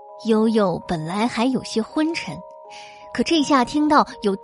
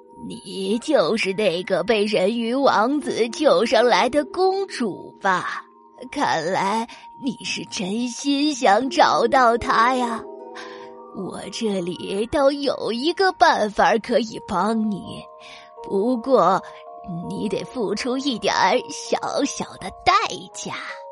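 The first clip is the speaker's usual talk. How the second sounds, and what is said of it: Evil old woman voice. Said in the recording (Chinese): “她用邪恶的声音说”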